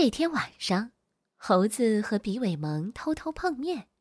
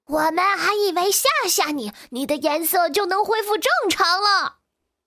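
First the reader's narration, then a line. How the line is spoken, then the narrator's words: Shouting. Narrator (Chinese): 猴子和比尾蒙冲变色龙大喊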